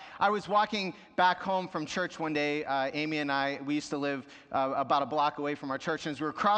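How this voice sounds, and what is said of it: Usual voice. Nothing is said of it.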